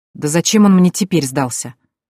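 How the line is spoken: Angry, through clenched teeth. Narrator (Russian): зло процедила я

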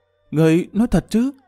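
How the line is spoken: Trembling question. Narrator (Vietnamese): Tiêu Ngọc Sương run rẩy hỏi lại

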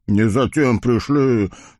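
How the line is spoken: Gloomy blacksmith mumbling. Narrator (Russian): мрачно пробурчал целомудренный кузнец

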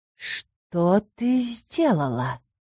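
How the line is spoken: Angry hiss like a cat. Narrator (Russian): Зло прошипела рассерженной кошкой сирена

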